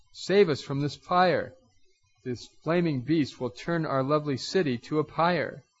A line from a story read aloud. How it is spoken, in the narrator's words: Distraught, the people cried to Krishna